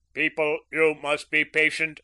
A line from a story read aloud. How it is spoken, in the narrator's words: boomed the government announcer